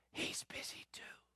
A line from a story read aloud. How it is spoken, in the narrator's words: Little boy whispers